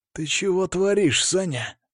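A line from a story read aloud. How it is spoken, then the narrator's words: Aggressive hiss. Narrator (Russian): агрессивно зашипел Сергей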